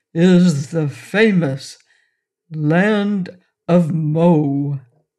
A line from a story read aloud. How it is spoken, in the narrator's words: he announced in a solemn, impressive voice